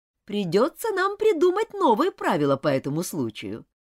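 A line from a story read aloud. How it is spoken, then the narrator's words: Laughing. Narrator (Russian): Миссис Таунсенд рассмеялась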